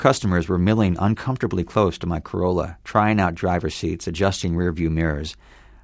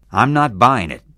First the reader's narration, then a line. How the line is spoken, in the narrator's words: said sternly